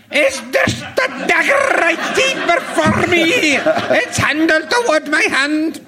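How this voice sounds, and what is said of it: Shakespeare in a funny regional accent. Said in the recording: “Would you like to do a bit of Shakespeare in a funny accent ... Shakespeare in regional accents”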